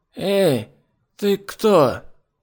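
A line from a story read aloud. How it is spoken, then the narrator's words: Hoarse croak. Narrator (Russian): голова на соседней подушке прохрипела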